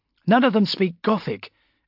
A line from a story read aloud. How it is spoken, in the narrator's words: Amberley snapped